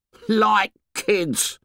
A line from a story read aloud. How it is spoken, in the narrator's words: said scornfully